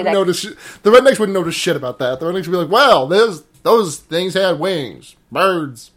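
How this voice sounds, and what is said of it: Exaggerated drawling Southern US accent. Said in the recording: “I'm from the South. ... That's a really good impression. ... The trick to being from the South is turning every word, is adding four syllables to every word. ... it's just a really vowel. ... I sound like Frank Underwood having a stroke.”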